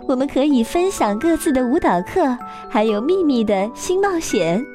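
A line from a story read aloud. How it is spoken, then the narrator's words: Laughing. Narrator (Chinese): 芭比笑着说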